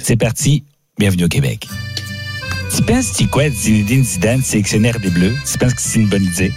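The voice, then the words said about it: Put-on Québécois French accent. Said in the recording (French): “je vais te poser des questions avec l'accent québécois. Avec un accent”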